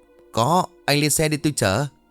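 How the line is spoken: Smiling reply. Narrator (Vietnamese): Lê Nam mỉm cười đáp

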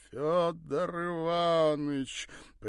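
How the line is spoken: Father's sing-song. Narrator (Russian): нараспев произнес отец

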